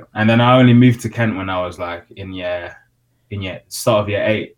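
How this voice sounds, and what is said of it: London accent. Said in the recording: “How have you adopted the London accent so quick? London accent.”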